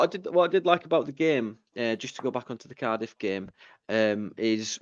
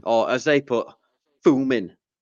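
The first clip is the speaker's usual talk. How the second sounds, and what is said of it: Put-on Cardiff accent. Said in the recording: “Well, that was a good accent. That was really good.”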